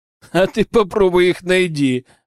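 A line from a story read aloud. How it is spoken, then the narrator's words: Laughing. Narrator (Russian): посмеялся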